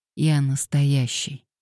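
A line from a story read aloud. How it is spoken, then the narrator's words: Hoarse. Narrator (Russian): хрипло сказал Мэтью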